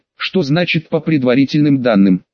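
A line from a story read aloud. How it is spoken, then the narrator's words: Plain question. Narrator (Russian): спросила Елизавета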